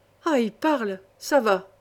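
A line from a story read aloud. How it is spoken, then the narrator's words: Exclaiming. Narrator (French): s'exclama Mercier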